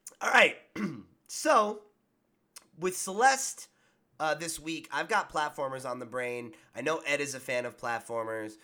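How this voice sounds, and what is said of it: Sick, strained, fading voice. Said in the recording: “I'm sick and losing my voice.”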